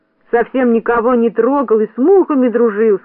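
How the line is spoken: Plain. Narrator (Russian): сказал Торопышка

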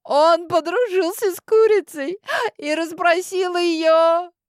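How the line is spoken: Laughing heartily. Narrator (Russian): хохотала дальше Каролина

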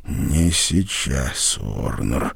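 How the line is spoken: Hoarse rasp. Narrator (Russian): прохрипел он

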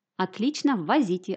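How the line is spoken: Plain. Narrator (Russian): ответил доктор

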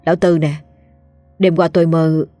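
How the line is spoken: Sighing. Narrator (Vietnamese): Nó lại thở dài

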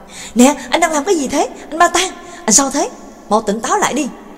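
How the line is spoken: Shouted question. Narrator (Vietnamese): Trường Lập và Nhạc Dương quát hỏi

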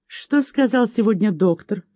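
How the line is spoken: Tender question. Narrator (Russian): спросил он нежно

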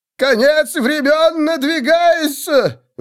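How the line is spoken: Wild-eyed zealot's howl. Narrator (Russian): вопил аскет, подвижник Сигмара с дикими глазами

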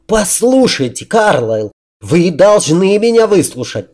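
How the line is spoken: Yelling. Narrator (Russian): завопил граф

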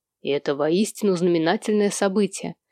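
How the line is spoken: Quiet, eccentric imitation. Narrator (Russian): тихо произнес Сэм в эксцентричной манере Артемаса Уорда

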